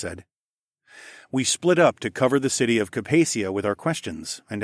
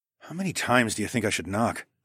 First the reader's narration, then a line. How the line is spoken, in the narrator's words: I murmured to Aliona